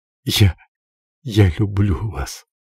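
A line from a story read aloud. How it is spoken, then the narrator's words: Smiling through tears. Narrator (Russian): она улыбнулась ему сквозь слезы и проговорила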